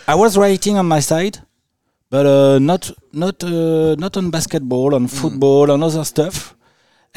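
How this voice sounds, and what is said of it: Speaks English with a foreign accent. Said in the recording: “as you can hear with my accent”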